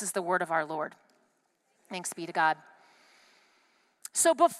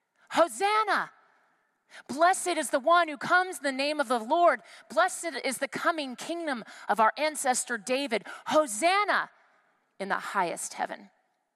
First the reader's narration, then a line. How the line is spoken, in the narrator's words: those who went ahead and those who followed were shouting